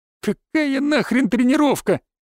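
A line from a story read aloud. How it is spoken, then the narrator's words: Forced, strained words. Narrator (Russian): выдавил Федька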